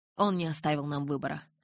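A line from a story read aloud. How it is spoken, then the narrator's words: Gloomy. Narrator (Russian): мрачно кивнул Карлайл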